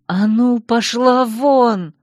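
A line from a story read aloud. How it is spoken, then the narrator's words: Hoarse rasp. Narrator (Russian): прохрипела я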